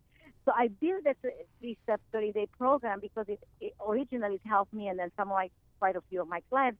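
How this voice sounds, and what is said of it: Speaks with a slight accent. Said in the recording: “you got a nice little accent there”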